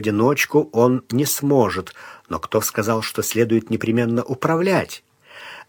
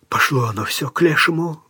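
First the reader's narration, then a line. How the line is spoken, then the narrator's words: Exhaled. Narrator (Russian): выдохнул Бунак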